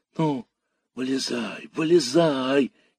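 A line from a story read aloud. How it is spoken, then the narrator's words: Impatient children shouting. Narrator (Russian): нетерпеливо закричали ребятишки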